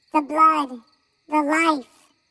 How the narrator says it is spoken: they all squeaked

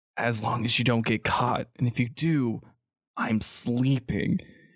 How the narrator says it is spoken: he just whispers

